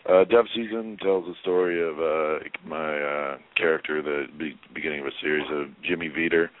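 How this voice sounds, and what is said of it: Deep, hoarse, scratchy voice. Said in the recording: “I'm a little hoarse ... my voice is actually this deep, but it's also a little scratchy right now.”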